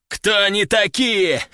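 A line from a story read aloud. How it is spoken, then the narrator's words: Laughing while speaking. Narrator (Russian): Продолжил хохотать он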